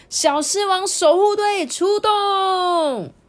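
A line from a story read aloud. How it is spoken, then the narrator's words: Loud excited shout. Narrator (Chinese): 凯安还跳起来，大声呼喊说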